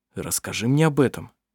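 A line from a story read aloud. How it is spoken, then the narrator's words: Quiet. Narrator (Russian): тихо произнес Арф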